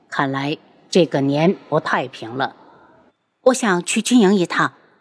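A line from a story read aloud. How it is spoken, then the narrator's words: Sighing. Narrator (Chinese): 他叹气道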